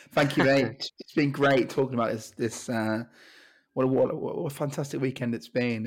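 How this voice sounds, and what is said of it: Hoarse voice. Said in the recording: “you've been feeling particularly hoarse.”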